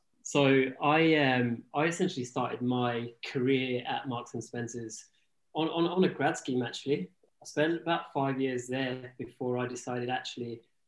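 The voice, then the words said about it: English accent. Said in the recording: “You're obviously English, you've got an accent”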